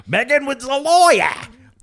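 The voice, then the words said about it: Terrible put-on British accent. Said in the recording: “That was a terrible British accent.”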